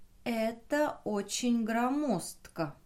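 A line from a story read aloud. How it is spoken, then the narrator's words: Slow, young woman. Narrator (Russian): медленно проговорила девушка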